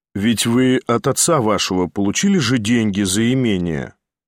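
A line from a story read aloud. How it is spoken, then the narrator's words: Calm remark. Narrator (Russian): спокойно заметил Николай Всеволодович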